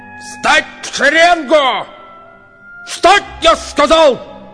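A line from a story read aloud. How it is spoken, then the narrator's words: Yelling. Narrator (Russian): Заорал сразу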